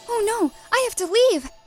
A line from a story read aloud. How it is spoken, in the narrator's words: gasped Cinderella